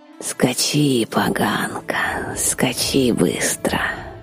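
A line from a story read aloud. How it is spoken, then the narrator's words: Whisper. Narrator (Russian): прошептала Вильда в горизонт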